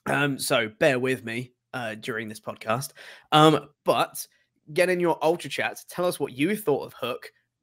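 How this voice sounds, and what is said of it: Strained voice, still recovering. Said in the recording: “My voice is still recovering a little bit from karaoke 2 nights ago.”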